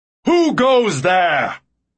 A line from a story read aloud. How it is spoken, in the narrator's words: a booming voice shout